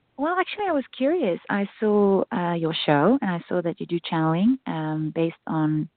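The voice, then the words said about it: South African accent, close to Australian. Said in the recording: “your accent, I know you said South African, but it sounds also very close to Australian, too”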